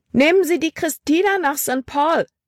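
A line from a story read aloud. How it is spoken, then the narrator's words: Called out. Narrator (German): rief sie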